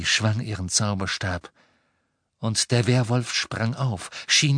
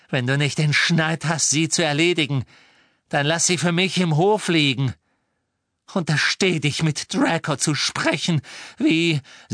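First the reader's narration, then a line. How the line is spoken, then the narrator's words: Angry. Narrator (German): sagte Narcissa zornig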